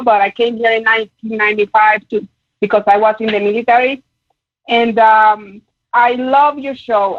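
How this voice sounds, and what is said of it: Puerto Rican accent. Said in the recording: “I hope that you understand my accent because I'm actually from Puerto Rico”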